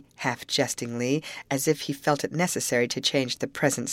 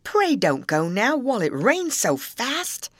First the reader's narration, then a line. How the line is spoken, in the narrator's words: exclaimed